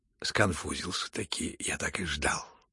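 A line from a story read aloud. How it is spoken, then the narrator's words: Sudden whisper in ear. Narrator (Russian): шепнул вдруг Евгений Павлович на ухо князю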